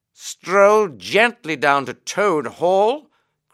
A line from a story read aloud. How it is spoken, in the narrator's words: cried the Rat, greatly excited